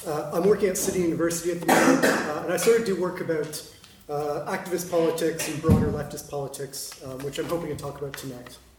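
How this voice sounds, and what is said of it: Slightly out of breath. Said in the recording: “I'm slightly out of breath because I just ran here”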